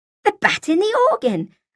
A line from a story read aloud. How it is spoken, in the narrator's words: I said excitedly